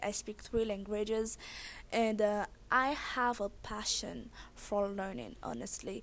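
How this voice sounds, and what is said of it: Thick Haitian accent. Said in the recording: “when you have a thick accent, everybody usually wants to know where you were born and raised ... I was born and raised in Haiti”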